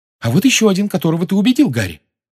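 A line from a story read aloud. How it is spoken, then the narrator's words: Excited exclamation. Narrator (Russian): возбужденно воскликнула Гермиона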